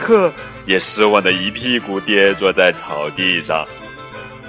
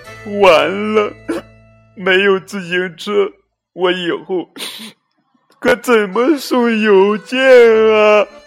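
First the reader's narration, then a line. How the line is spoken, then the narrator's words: Sobbing. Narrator (Chinese): 邮递员抽泣着说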